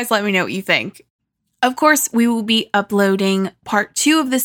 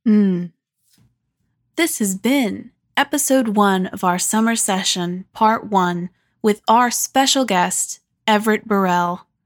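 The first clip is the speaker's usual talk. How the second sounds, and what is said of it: Public radio announcer voice. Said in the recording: “That was my NPR voice, because this kind of feels like an NPR special”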